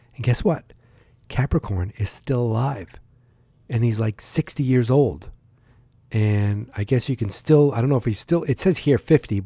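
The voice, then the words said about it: Boston accent. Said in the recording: “I have a Boston accent.”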